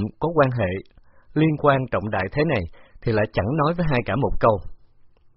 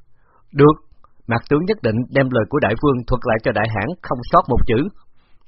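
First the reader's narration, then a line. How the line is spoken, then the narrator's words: Loud reply. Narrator (Vietnamese): Khả Đặc Chí lớn tiếng đáp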